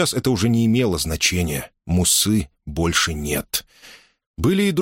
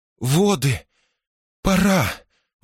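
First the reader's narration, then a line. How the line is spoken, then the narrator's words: Breathless exhale. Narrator (Russian): выдохнула Дайя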